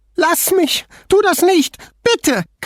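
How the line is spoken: Frantic shriek. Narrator (German): kreischte Manuela wie von Sinnen

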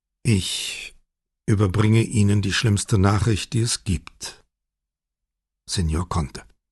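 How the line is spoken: Plain. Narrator (German): sagte Brunetti

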